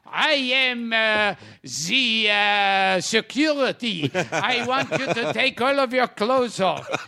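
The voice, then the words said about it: Put-on French accent. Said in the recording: “like in a French accent”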